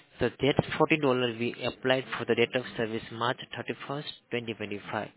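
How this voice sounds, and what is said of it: Accent that is hard to understand. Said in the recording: “I'm having a little difficulty understanding your accent ... any difference in accent sometimes throws me”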